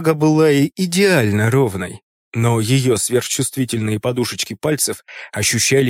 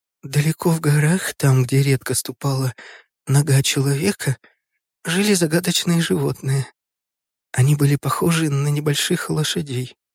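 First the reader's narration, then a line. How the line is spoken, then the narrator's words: Little girl reading quietly. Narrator (Russian): маленькая девочка Ора тихо читала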